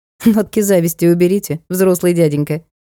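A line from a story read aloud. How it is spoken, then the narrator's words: Giggling request. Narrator (Russian): попросила я, хихикнув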